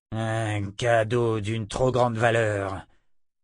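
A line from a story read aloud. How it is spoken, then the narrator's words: Grumbled. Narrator (French): grogna Chandalen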